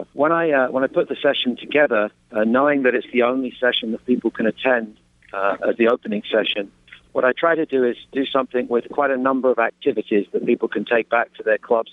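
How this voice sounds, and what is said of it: English accent. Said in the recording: “it's my English accent ... I'm very much the American coach, but with an English flavor”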